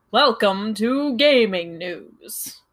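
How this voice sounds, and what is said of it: Video game announcer voice. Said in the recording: “Super Smash Brothers announcer voice”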